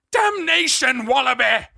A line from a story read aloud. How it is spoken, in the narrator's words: He screeched